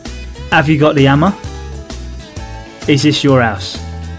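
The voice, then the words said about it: Cockney accent, dropped H sounds. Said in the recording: “A Cockney English accent... One of the key features of the Cockney English accent is the dropping of the H sound at the start of many words”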